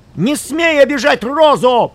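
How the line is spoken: Shouted. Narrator (Russian): крикнул он

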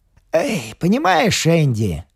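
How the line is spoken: Says with a sort of sigh. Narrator (Russian): говорит Мак, вроде как вздохнув

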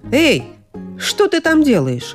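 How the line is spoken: Exclaiming. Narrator (Russian): воскликнул принц

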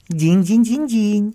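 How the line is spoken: Laughing answer. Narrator (Russian): отвечал проводник, смеясь

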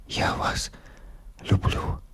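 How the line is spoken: Whisper. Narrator (Russian): прошептал он

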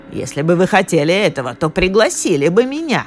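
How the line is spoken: Indignant old woman exclaiming. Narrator (Russian): возмущенно воскликнула гадкая старуха

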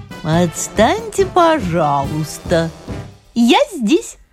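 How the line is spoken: Thin ringing little voice. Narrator (Russian): прозвенела тонким голоском серебряная ложечка

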